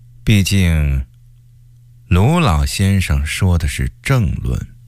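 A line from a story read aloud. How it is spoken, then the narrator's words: Flat, resentful. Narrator (Chinese): 曹化淳因为不满高启前近2-3年爬得太快，淡淡地说了句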